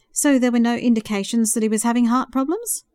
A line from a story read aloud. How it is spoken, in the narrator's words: Jim asked